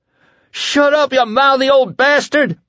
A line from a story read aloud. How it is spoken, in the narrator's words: Lloyd screamed